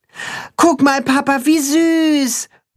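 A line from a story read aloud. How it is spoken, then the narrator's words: Child calling out. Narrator (German): ruft der Junge seinem Vater zu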